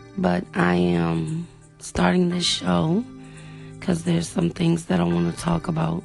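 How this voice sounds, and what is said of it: Slightly raspy voice. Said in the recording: “My voice is a little raspy. ... I've been under the weather.”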